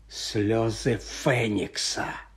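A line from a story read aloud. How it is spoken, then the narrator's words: Quiet. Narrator (Ukrainian): тихо вимовив Редл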